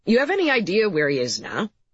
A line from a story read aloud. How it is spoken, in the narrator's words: Kendrick laughed